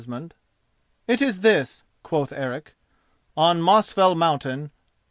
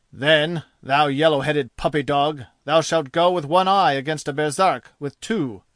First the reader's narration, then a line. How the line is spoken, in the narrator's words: growled Ospakar